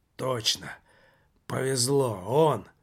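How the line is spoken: Very quiet hoarse whisper. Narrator (Russian): прошептал совсем уже тихо, хриплым голосом Жак

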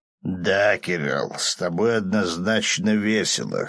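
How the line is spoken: Demon's amused snort. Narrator (Russian): хмыкнул демон

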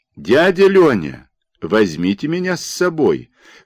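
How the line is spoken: Shout while running. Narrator (Russian): крикнул, подбегая к высокому возу, Андрийка Горицвит

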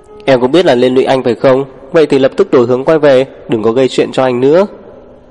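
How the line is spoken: Angry shout. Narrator (Vietnamese): Lục Bất Thâm, anh quát

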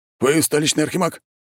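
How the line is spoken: Hurried question. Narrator (Russian): торопливо спросил один из них

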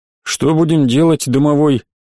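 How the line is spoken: Glum question. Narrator (Russian): Как-то совсем уныло спросил мой друг

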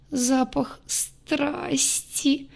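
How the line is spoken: Moaning, sobbing young woman. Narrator (Russian): простонала девушка, всхлипывая все чаще

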